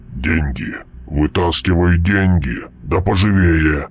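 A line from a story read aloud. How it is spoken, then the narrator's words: Growl. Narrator (Russian): прорычал Мальп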